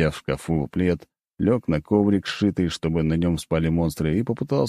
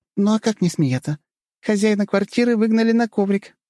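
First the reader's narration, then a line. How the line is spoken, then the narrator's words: Giggling. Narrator (Russian): хихикала та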